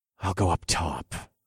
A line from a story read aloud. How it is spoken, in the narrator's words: I whispered into the comms